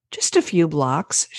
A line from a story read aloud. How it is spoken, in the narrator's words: she said cheerfully